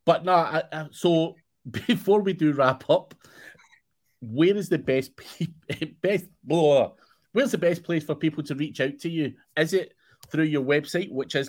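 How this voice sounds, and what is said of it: Scottish accent. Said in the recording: “you scare people with your Scottish accent.”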